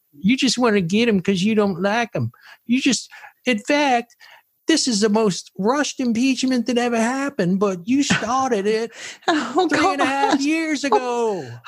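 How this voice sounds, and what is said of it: Exaggerated put-on Southern accent. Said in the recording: “they all have that exaggerated Southern accent.”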